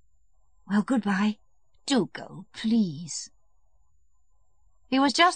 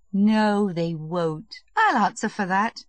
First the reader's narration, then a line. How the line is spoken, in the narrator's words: said Kitty, with a laugh